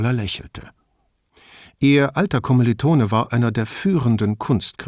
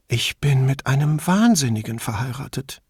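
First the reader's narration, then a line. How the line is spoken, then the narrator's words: Murmured. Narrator (German): murmelte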